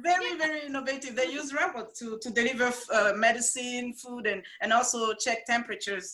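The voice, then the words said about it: Speaker's own foreign accent. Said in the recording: “Sorry, my accent.”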